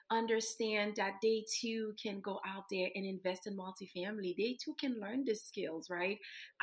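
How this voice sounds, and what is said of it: Slight foreign accent. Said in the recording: “you have a little bit of an accent. So you're not from this country.”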